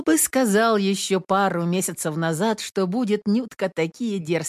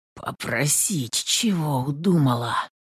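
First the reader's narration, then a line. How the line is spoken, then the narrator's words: Whisper. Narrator (Russian): шептал Петр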